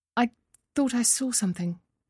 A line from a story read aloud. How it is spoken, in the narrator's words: murmured